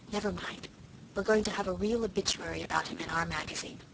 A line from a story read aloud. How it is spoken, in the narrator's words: whispered Cecily consolingly